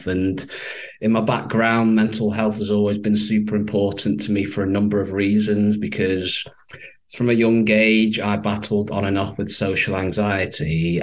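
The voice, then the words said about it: Northern English Manchester accent. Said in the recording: “if you can tell from my accent, I'm clearly not from the US. I'm based in the UK, from Manchester. What we would say over here is they've got quite a lovely northern twang.”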